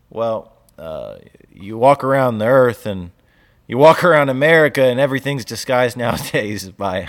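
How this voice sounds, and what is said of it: Southern American accent. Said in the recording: “your southern accent comes out every time.”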